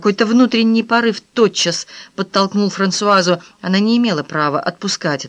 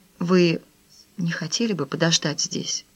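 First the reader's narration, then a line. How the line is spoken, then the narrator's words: Whisper. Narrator (Russian): прошептала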